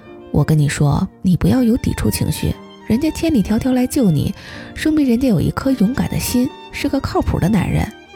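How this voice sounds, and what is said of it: Quiet, hushed persuading voice. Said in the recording (Chinese): “小声的”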